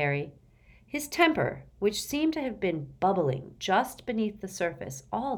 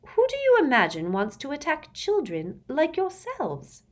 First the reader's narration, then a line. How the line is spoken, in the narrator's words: inquired Professor Umbridge in a horribly honeyed voice